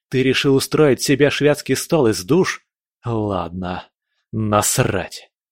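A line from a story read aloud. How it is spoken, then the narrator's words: Strained growl through pain. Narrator (Russian): Прорычал я, превозмогая боль и сопротивление темной энергии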